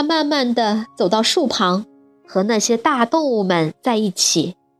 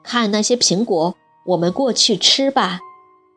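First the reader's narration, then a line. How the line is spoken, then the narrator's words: Soft father's voice. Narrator (Chinese): 爸爸轻声说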